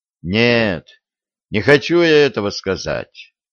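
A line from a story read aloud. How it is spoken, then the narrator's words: Sighing. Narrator (Russian): вздохнул Виталий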